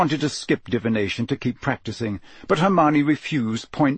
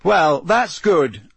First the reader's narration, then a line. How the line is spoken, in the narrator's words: said Harry loudly, his temper getting the better of him